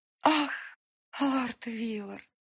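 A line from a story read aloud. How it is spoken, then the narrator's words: Languid sigh, maiden. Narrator (Russian): Томно вздохнула одна из дев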